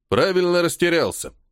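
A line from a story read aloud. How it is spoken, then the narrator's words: Snort. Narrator (Russian): хмыкнул полковник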